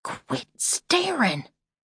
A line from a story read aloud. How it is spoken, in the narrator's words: she hissed finally